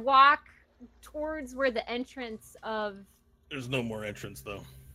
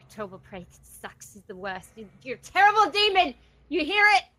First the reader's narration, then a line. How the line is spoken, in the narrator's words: I'm mumbling to myself, and I'm gonna mumble it to myself in Infernal